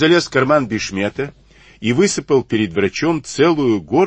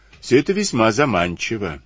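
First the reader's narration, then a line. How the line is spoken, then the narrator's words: Calm. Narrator (Russian): спокойно ответил Сивицкий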